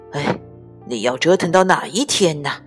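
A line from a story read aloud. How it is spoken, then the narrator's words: Muttering. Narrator (Chinese): 爸爸都会咕哝说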